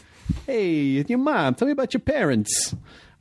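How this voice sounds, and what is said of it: Put-on gangster accent. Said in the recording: “I still gotta have like a gangster accent.”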